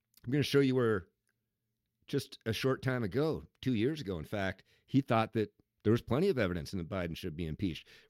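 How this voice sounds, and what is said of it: Scratchy, strained voice from cold. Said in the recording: “my voice is barely hanging on here today. ... A little bit of a scratchy cold or something going on.”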